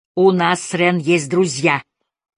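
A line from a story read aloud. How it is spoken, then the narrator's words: Quieter, regaining composure. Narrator (Russian): сказал уже не так громко и почти взяв себя в руки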